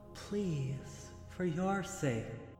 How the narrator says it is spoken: she said, gently

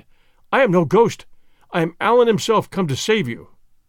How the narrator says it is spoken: I cried

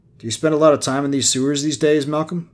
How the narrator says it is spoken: Joe asked

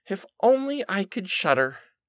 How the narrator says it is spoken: said quite sadly

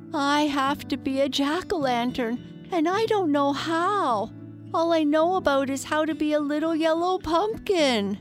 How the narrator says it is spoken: answered the little pumpkin sadly

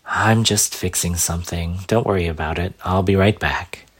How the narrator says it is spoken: Breathing in, he let out a long sigh before saying

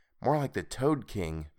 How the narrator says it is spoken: Meg replied softly

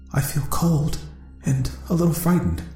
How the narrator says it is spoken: she whispered

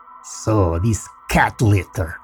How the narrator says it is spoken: he said in a weird accent

